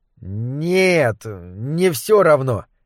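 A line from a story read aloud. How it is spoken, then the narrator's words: Uncertain rat reply. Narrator (Russian): неуверенно отозвалась другая крыса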